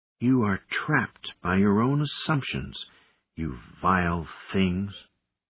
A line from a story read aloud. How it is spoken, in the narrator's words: murmured in Galactic 7